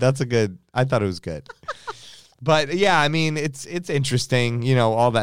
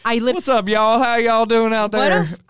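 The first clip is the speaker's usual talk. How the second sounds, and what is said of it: Fake Texas accent. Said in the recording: “your fake Texas accent”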